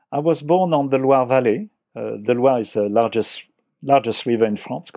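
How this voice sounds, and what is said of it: French accent. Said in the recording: “speak with a French accent ... by uh, your accent, you were born in France”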